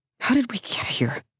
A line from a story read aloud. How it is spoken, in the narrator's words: whispers, horrified